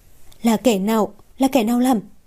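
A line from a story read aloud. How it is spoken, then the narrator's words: Trembling, choked voice. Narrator (Vietnamese): toàn thân run rẩy, mãi một hồi lâu mới lên tiếng được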